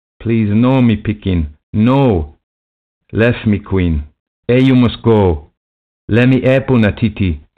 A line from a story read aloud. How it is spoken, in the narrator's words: Lethera shouted